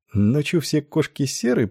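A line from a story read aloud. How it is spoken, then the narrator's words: Muttering. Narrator (Russian): пробормотал Майлз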